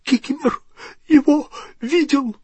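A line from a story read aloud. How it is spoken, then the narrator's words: Wheezing rasp. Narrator (Russian): просипел эльф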